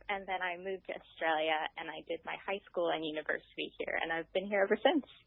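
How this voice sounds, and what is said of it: American accent. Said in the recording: “misleading American accent”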